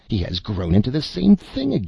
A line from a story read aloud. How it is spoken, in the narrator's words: exclaimed the sorcerer